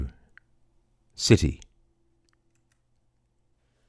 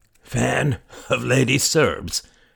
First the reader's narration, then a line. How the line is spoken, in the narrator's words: the man wheezed